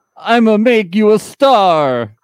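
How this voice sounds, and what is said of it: Cartoonish fake Italian accent. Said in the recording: “cartoonish faux Italian accent”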